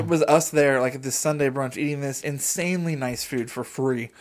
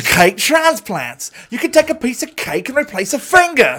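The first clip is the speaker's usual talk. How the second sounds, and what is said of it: Loud, poor fake British accent. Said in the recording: “this horrible British accent ... really loud ... your British accent is, it's probably the best one you do, but it's still terrible.”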